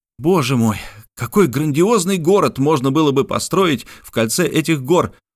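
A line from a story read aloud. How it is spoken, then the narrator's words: Delighted exclamation. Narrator (Russian): воскликнул в восторге Мишель Ардан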